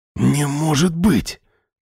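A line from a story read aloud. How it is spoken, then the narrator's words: Whisper. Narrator (Russian): прошептал Вадим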